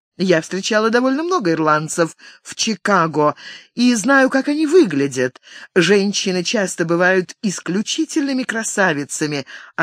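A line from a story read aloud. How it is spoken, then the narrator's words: Giggling. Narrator (Russian): она хихикнула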